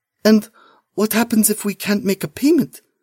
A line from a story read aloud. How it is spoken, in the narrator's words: Malina asks, her voice barely a whisper